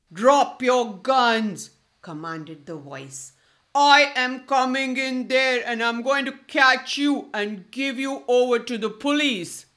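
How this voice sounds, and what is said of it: Loud, deep, hoarse commanding voice. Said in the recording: “a very loud and deep voice ... the loud, hoarse voice”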